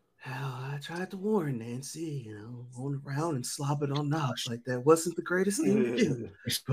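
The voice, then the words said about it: Ronald Reagan impression. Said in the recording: “you got too many accents. You can do accents. Too many impersonations ... Ronald Reagan”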